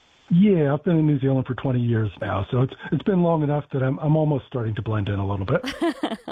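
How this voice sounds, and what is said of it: American accent. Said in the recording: “I can tell by your accent there, you're from America”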